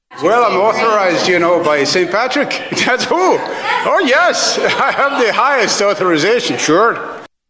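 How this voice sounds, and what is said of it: Poor put-on Irish accent. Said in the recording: “attempting, I would argue, a worse Irish accent than even Barack Obama ... What is that accent?”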